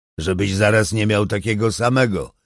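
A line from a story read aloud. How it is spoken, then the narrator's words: Growl. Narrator (Polish): warknął Iggy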